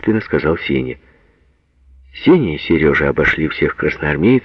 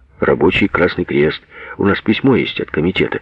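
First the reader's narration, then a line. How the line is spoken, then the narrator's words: Hurried, anxious soldier. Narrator (Russian): торопливо сказал красноармеец, забоявшись, что ему не верят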